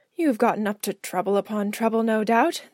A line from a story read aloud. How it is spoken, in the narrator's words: the Doctor muttered